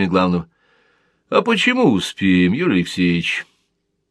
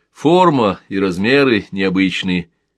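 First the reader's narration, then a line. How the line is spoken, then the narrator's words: Plain. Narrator (Russian): сказал Георгий Шонин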